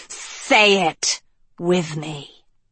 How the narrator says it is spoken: the snake hissed

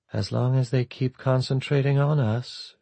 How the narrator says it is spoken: she murmured softly

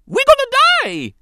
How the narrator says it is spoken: He screamed

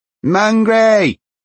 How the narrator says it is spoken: he shouted

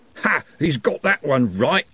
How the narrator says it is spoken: he roared

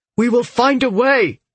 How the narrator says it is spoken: he said, his voice desperate

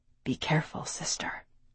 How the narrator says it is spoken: Walther whispered

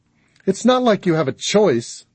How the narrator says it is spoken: Darla snapped

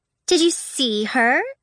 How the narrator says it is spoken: The first girl's voice was light and chirping, like a bird's

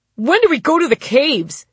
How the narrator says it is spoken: some adolescent klutz shouted

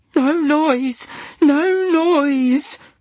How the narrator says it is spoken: sobbed Diana

